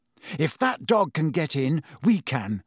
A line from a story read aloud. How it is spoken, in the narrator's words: Harry panted